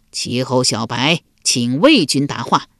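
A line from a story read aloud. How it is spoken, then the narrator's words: Loud commanding call. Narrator (Chinese): 齐桓公边指城楼高声叫道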